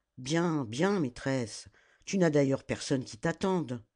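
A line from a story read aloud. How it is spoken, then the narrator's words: Old woman grumbling. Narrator (French): la vieille esclave, en grommelant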